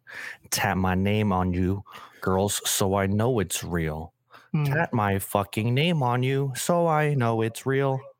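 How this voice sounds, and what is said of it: Robotic Canadian-accented rapper impression. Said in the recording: “my Drake impression. That was like a Canadian accent, huh? ... Sound like a Canadian robot.”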